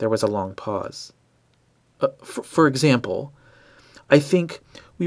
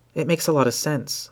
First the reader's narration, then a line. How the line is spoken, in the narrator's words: I said